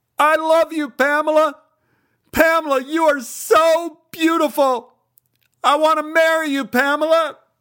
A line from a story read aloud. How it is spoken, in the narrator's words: I started shouting